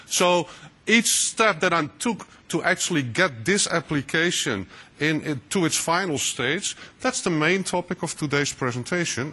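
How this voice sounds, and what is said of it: Dutch accent. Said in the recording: “here in the Netherlands, so that's my funny accent there.”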